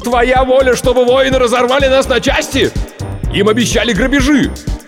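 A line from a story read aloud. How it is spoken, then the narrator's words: Wild scream. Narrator (Russian): Другой дико завопил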